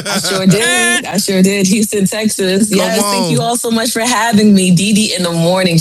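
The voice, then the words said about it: New York / New Jersey accent. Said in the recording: “I love that accent, though. Y'all hear her accent? That's that real New York accent ... That's that Jersey.”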